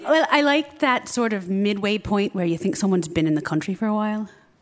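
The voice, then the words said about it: American accent with slight Irish tinge. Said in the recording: “Irish... It's like kind of American, but not entirely. There's a tinge to it... I don't fake the Irish every day”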